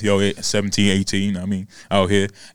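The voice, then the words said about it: Exaggerated very deep voice. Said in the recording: “super deep voice.”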